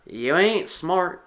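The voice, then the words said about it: Attempted slow country accent. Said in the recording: “trying to do a country accent”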